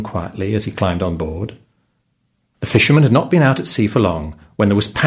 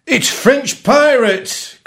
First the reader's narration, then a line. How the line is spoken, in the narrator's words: cried the captain